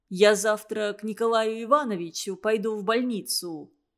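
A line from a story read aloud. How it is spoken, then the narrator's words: Calm now. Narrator (Russian): уже спокойно сказал он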